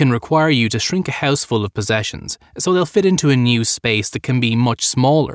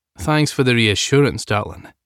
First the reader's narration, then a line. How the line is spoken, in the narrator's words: Declan said dryly, still privately amused by Sam's protestation